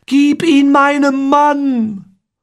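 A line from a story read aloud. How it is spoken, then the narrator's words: Screaming. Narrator (German): Amoret schrie mir zu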